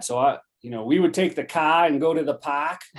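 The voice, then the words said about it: Exaggerated New England accent. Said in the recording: “I had that New England accent really bad ... And that is how I sounded. I mean, I was the epitome of a New England accent.”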